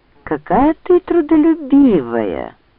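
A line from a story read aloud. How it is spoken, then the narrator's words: Insinuating. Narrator (Russian): вкрадчиво произнес он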